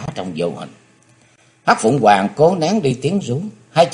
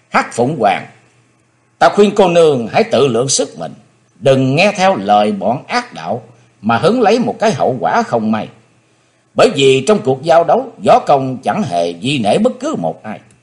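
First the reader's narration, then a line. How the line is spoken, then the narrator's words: Stern, brooding shout. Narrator (Vietnamese): Chí Tôn trầm nghĩ quát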